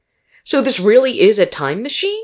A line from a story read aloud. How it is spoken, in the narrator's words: asked excitedly